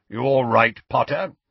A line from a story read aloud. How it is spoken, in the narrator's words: grunted Moody